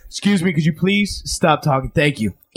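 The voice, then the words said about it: Deliberately deeper voice. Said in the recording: “in a deeper voice than usual”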